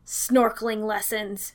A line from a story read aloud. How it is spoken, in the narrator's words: Danny spat